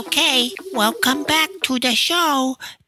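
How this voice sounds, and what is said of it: Baby voice. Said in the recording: “This is my baby accent.”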